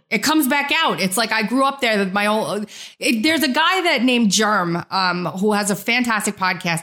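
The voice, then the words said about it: Strong New York accent. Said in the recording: “My New York accent was just flying through this interview today”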